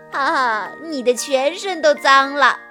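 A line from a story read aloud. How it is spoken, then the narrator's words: Teasing. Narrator (Chinese): 艾丽卡取笑他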